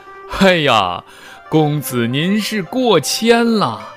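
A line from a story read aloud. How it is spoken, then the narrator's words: Laughing. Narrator (Chinese): 楚王笑着说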